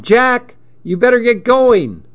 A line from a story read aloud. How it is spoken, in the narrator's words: Mom yelled again